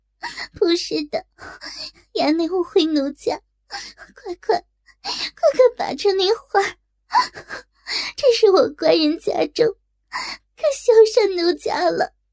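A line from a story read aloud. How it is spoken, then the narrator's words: Crying. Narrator (Chinese): 哭道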